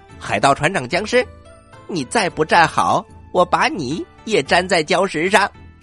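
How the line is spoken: Loud shout. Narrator (Chinese): 玉米投手大声的喊

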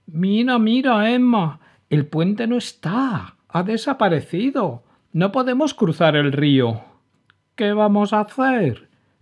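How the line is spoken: Exclaimed. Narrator (Spanish): exclamó Gussie

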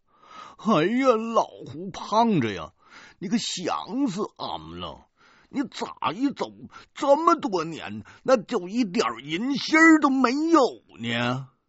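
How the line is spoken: Crying. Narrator (Chinese): 哭着对我们说

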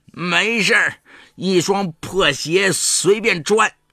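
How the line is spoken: Drunken shouting. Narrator (Chinese): 李勇醉醺醺的喊

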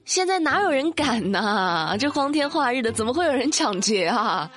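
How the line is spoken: Dismissive, incredulous. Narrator (Chinese): 店员以为他开玩笑呢，就说

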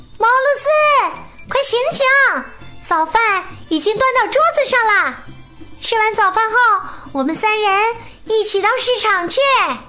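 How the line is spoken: Calling loudly upstairs. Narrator (Chinese): 莱娜从厨房里大声朝楼上喊

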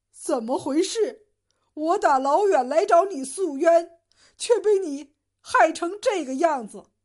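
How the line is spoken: Crying. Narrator (Chinese): 赵成哭着说

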